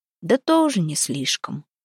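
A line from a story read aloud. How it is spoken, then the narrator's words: Sighing old man. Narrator (Russian): вздохнул дед Сава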